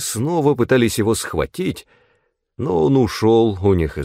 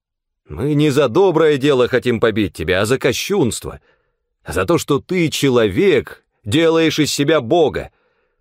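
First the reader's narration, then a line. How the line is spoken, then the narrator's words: Plain. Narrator (Russian): ответили они ему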